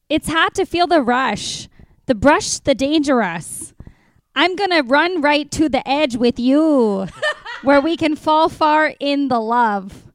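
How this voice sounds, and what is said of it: Put-on Midwest mom accent. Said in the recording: “I feel like part of me wants to do this like a Midwest ... I need to do like the Midwest mom ... We got a Midwest Lady Gaga happening right now.”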